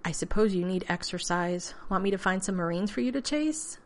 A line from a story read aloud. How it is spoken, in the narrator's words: He sighed